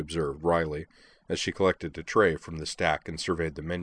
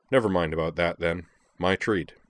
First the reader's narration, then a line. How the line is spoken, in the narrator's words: said Sionji